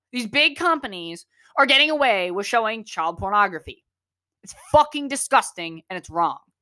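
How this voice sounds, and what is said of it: Raised, angry voice. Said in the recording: “I'm raising my voice a little bit ... I'm very pissed off”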